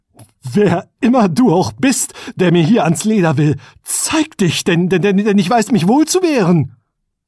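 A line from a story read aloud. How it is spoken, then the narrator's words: Trembling call. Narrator (German): rief mit bebender Stimme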